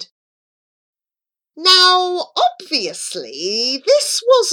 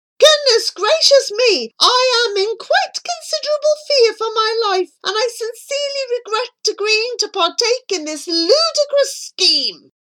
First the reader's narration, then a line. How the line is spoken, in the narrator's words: he screamed